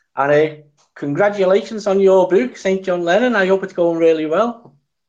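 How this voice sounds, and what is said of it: Scouse Liverpool accent. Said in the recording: “the Scouser accent”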